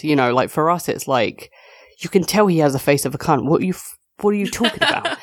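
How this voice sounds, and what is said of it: British accent. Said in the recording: “as someone that is a holder of this accent, I understand the power that it has over you people.”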